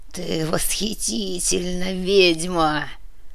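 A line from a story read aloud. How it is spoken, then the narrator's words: Hoarse whisper. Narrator (Russian): хрипло прошептал Ктулху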